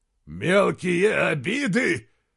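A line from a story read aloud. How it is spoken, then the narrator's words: Roaring. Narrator (Russian): взревел Изгримнур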